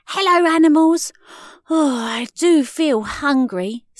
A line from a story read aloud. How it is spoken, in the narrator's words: sighed Maisie